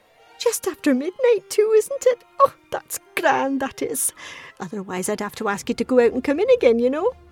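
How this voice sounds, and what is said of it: Elderly woman's English-sounding accent. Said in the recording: “Lewis noticed her accent now. It was sort of English”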